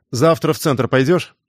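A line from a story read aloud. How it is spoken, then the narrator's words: Stern question. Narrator (Russian): строго спросил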